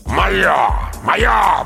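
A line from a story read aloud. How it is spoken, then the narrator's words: Growled. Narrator (Russian): прорычал он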